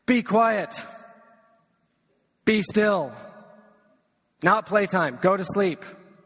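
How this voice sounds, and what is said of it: Stern commanding dad voice. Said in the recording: “It's the dad voice. You guys all know the dad voice.”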